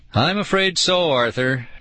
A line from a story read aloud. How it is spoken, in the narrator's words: Dad sighed